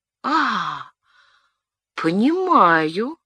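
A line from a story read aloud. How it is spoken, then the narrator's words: Drawling, recovering composure. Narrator (Russian): протянула, несколько опомнившись, Диана де Пуатье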